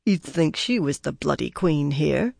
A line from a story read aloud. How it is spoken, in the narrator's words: Brigitta muttered